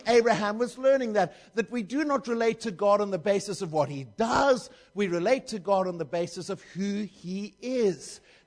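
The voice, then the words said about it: Speaks with a noticeable accent. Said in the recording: “You're understanding my accent? All right. I mean, if you've got trouble with my accent”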